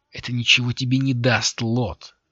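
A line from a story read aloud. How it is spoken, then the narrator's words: Strained. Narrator (Russian): выдавила Лири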